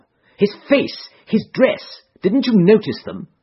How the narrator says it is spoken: Holmes broke in impatiently

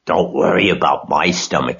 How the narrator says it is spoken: snarled Templeton

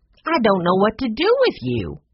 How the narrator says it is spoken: cried Maggie

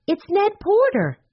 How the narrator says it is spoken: Jessie cried

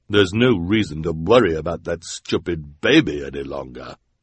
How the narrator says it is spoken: said the woman with hair but no beard, in her deep, deep voice

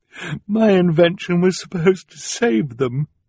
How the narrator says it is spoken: she said mournfully

